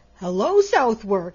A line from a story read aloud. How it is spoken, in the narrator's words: he cried